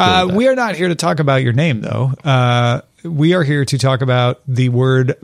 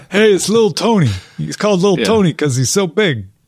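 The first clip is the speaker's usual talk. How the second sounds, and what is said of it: Put-on Sopranos-style mobster accent. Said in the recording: “I don't know why that accent was where I went, except maybe Sopranos. I blame Sopranos... It's a Soprano accent.”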